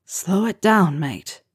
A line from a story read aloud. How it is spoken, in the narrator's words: Harry whispered in his ear